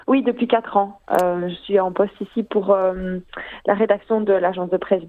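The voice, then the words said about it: Mild Belgian French accent. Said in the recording (French): “avec un charmant accent belge ... Petit accent belge”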